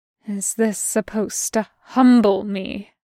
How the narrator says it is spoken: Bren hisses

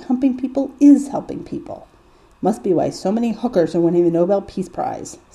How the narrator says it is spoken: Sam snorts

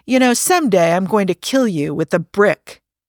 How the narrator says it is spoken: Rodney snorted and said

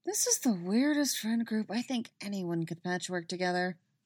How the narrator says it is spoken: Robin mutters

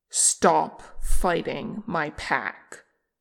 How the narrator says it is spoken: Che took another snarling breath, and then he commanded

